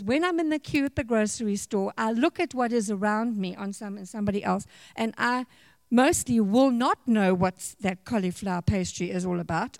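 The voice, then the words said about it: Non-local foreign accent. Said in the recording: “you can hear by my accent I'm not from here”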